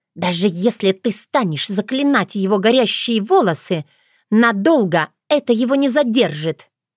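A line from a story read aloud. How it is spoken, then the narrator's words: Angry blurting fairy. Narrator (Russian): Злобно выпалила фея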